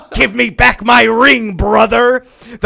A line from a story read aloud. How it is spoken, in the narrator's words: The farmer, thinking his brother was returning from the dead, screamed loudly